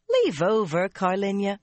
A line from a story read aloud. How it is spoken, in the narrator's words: Anaya chuckled